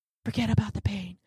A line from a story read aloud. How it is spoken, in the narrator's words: Dreamfather whispers